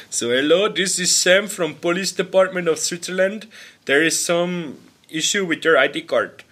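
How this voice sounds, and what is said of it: Put-on Indian English accent. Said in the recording (German): “Dann war so ein Inder dran ... der Dialekt, Baba. Wirklich ... your Indian accent”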